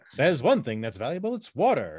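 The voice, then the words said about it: Poor impression of a newspaper-guy voice. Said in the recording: “that's a terrible impression, but anyway, that's more of a newspaper guy.”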